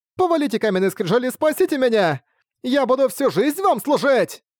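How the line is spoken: Shout. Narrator (Russian): Хулин-Эр крикнула

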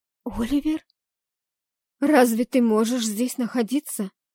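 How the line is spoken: Trembling question. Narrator (Russian): дрожащим голосом спросила я

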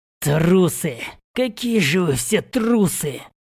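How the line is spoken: Speech through gritted teeth. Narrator (Russian): процедил сквозь зубы остроухий жрец

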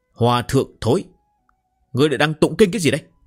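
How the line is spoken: Roaring. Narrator (Vietnamese): một tiếng gầm rú

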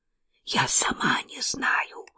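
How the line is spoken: Whispered. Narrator (Russian): прошептала Кейт

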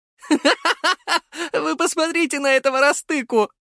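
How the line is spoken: Loud laughter. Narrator (Russian): захохотал Артем

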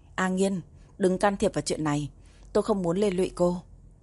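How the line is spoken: Surprised, sighing. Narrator (Vietnamese): Uông Chữ Hạ ngạc nhiên nhìn Đàm Hân Nghiên, thở dài nói

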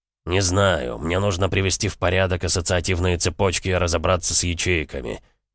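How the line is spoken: Gruff grumble. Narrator (Russian): буркнул Бронзовый

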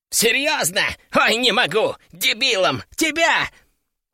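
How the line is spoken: Uproarious laughter. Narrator (Russian): Он хохотал так, что чуть не свалился на пол

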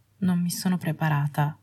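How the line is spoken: Woman murmuring. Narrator (Italian): mormorò lei

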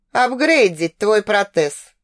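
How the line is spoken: Chuckling. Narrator (Russian): хохотнул Шасиир

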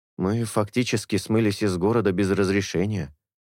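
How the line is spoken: Plain. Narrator (Russian): сказал Мира

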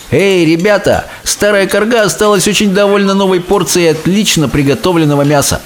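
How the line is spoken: Cheerful shout. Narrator (Russian): Он весело крикнул

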